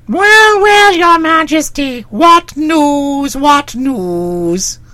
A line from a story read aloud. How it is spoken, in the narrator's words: he demanded in a shrill, cracked voice